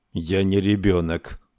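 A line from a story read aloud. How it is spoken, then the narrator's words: Gloomy mutter. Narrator (Russian): мрачно пробормотал Саймон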